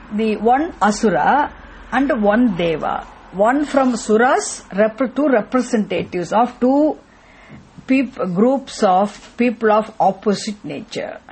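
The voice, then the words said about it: Loud, shouting voice. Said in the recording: “I have ear blocking, that's why I'm screaming”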